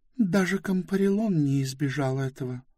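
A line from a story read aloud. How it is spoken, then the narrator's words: Calm. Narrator (Russian): спокойно проговорила Близ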